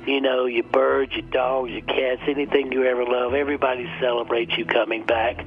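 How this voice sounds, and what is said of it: Southern American accent. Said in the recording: “I speak in a southern accent”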